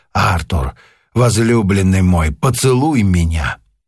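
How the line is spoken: Soft sweet whisper. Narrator (Russian): мягким сладостным голосом прошептала

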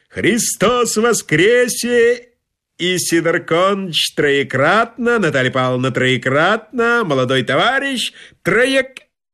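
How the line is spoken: Joyful full-lunged yelling. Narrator (Russian): Завитой, пронизанный насквозь праздничным настроением блондин, радостно во всю мочь легких заорал

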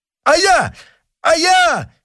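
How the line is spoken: Desperate pale shout. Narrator (Russian): кричал побледневший Оливен, в отчаянии

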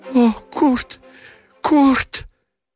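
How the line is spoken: Sobbing cry, choking wail. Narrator (Russian): Рыдающе вскрикнула немка, захлебнулась воплем и плачем

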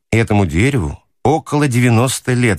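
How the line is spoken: Plain. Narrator (Russian): сказал хозяин

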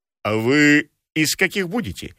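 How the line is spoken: Deep bass question. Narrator (Russian): спросила изрядным басом Домна Павловна

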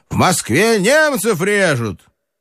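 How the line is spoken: Shout. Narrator (Russian): крикнул

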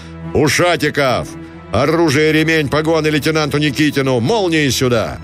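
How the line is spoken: Booming, powerful parade-ground bass. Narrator (Russian): Загремел Гранатуров прокричал вниз раскатистым мощным строевым басом

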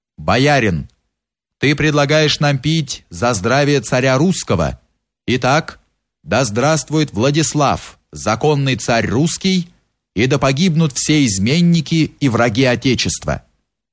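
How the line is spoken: Firm voice. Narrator (Russian): Он сказал твердым голосом

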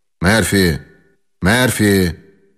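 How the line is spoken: Loud calling. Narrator (Russian): громко позвал

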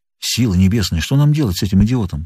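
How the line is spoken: Whispered. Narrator (Russian): прошептал фотограф

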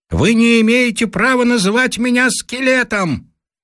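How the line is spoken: Loud distant shouting. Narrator (Russian): вдали на реке кто-то громко кричит

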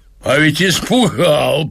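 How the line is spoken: Man, gleeful laughter. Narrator (Russian): проговорил мужчина и захохотал от удовольствия

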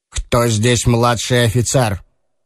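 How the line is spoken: Sharp question. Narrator (Russian): резко спросил

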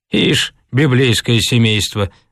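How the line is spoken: Sigh. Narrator (Russian): вздохнул Хрунич

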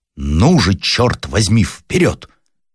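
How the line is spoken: Commanding shout nearby. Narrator (Russian): раздался от него в двух шагах, и кто-то повелительным голосом закричал

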